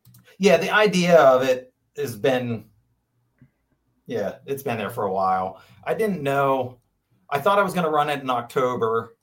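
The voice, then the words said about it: Franklin County regional accent. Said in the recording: “I love York County accents. ... Yeah, that's my Franklin County accent.”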